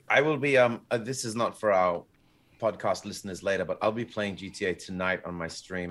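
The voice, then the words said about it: Strained, worn-out voice. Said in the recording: “I smashed my voice ... I was going to do singing tonight, but I smashed my voice”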